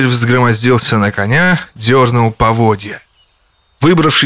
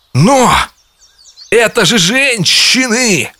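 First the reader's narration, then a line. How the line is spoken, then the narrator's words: Exclaimed. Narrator (Russian): воскликнул он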